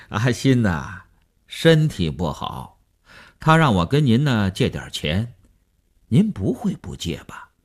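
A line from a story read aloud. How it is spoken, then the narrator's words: Chuckling, blunt, over phone. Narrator (Chinese): 那个人在电话里嘿嘿地笑了 直截了当地说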